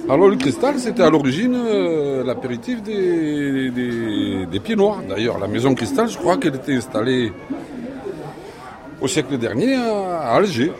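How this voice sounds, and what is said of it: Slight accent, Spanish origin. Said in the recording (French): “J'ai un petit accent, sans doute se note-t-il, parce que je suis d'origine espagnole, mais je suis arlésienne depuis des lustres”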